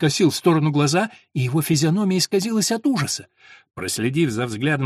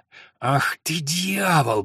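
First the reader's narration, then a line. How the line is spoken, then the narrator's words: Hoarse wheeze. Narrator (Russian): прохрипел он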